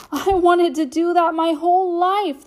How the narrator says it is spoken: the boy shouted

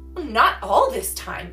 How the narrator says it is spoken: exclaimed Mrs

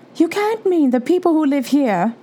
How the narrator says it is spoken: cried Professor McGonagall

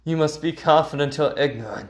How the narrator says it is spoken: he says

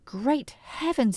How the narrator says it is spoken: he cried

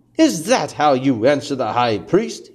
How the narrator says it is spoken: he asked

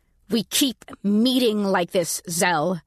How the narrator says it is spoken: I said through gritted teeth

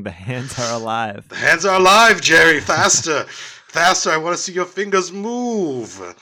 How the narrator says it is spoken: And he starts screaming

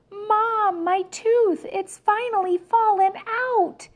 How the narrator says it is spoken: hollered

